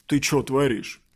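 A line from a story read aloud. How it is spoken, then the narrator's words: Rude. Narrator (Russian): грубо сказал он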